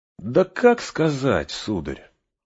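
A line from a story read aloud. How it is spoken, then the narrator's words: Thoughtful. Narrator (Russian): задумчиво отвечал Сэм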